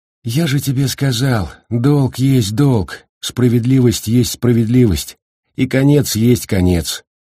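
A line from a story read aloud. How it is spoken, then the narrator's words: Calm reply. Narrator (Russian): спокойно ответил Макврайс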